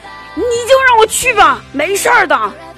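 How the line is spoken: Roaring, quarrelling. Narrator (Chinese): 爸妈吵架了，我爸在那吼着

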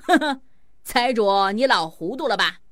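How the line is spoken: Laughing heartily. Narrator (Chinese): 吹破天哈哈大笑，对财迷精说

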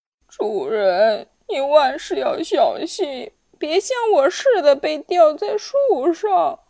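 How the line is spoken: Sobbing. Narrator (Chinese): 一把抓泪如雨下，抽泣着说

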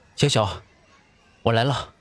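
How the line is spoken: Breathless, familiar voice. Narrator (Chinese): 背后传来一阵喘息而熟悉的声音

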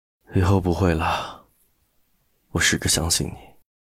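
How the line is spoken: Tender murmur. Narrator (Chinese): 陆漠北眸中闪过一抹疼惜，喃喃道

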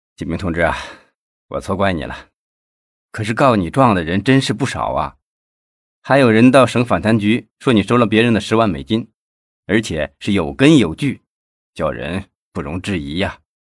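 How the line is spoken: Long sigh. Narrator (Chinese): 赵东林 长长的叹了一声

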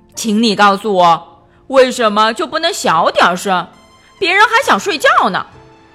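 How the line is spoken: Sudden loud shout. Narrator (Chinese): 笨笨突然大声喊道

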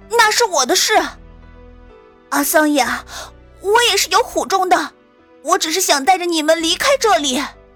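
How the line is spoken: Irritated roar. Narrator (Chinese): 阿达利心中正烦躁，便朝他吼了一声

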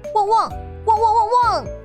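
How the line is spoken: Dog barking loudly. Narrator (Chinese): 小狗大叫

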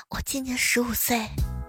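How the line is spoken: Muttering student. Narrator (Chinese): 后排有个学生嘀咕着说

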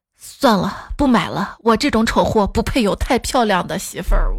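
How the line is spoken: Resolute, gritted teeth. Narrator (Chinese): 他一咬牙说

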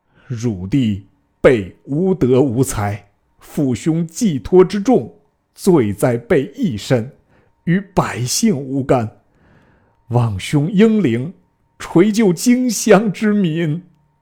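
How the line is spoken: Weeping. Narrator (Chinese): 玄德哭告曰

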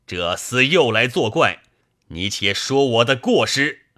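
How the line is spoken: Angry shout. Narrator (Chinese): 宋江大怒，喝道

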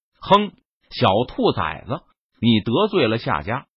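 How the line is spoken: Cold, stern. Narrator (Chinese): 陈宇 脸色一沉，冷声说道

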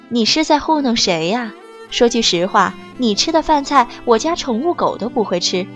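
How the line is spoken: Sighing, disapproving. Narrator (Chinese): 中年女人不住地摇头叹息

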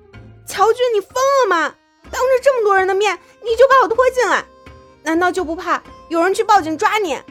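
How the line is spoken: Shouting. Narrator (Chinese): 苏荣大喊

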